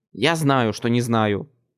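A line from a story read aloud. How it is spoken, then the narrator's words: Snapping retort. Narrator (Russian): огрызнулся я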